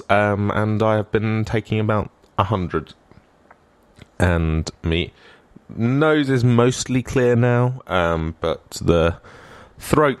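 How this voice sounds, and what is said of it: Hoarse, congested voice from a cold. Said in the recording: “Don't know where my voice went there ... as you can tell, I'm still slightly suffering from a cold from last week”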